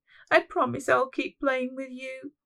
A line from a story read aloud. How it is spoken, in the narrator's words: she sobbed